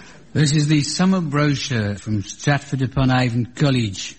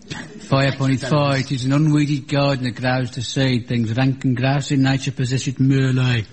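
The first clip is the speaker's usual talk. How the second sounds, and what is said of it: Put-on Warwickshire Shakespearean accent. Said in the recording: “an authentic Warwickshire Shakespearean accent ... That's Benny from Crossroads again. ... An authentic Stratford-upon-Avon brogue.”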